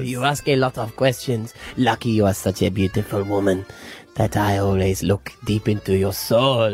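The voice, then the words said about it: Creepy fake put-on accent. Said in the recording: “that sort of accent because you know that it would be a creepy fake one. ... It was the laugh that gave that up the creep factor.”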